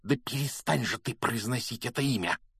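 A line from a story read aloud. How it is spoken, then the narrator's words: Hissing. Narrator (Russian): прошипел Рон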